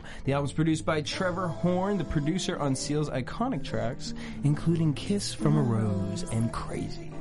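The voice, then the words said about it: Sultry, seductive low voice. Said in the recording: “giving your love sexy voice? ... the background love sexy.”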